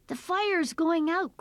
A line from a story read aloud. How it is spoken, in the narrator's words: cried Punjil